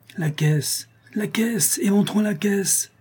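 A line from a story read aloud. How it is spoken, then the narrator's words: Savagely impatient exclamation. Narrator (French): s'écria Calebasse avec une sauvage impatience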